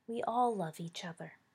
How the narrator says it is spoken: Remus sighed

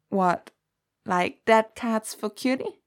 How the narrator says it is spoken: Danny croaked

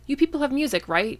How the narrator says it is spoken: he blurted out, interrupting Taylor

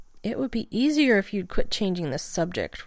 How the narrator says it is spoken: Rodney said sulkily

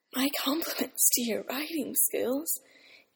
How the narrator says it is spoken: Eames gasped

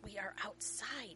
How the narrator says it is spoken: he hissed, the venom he'd been aiming for, breaking into a low moan

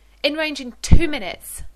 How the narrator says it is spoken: Rodney shouts back

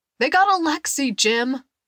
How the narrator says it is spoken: the man shouted

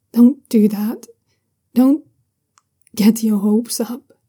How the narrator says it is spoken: he says quietly

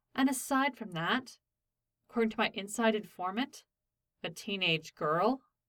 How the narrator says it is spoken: Derek interrupted flatly

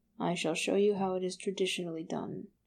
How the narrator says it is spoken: he murmured

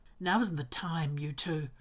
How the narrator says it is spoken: says quietly

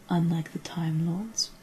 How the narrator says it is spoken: he asked softly

